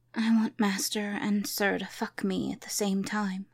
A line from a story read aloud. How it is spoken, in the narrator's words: she whispered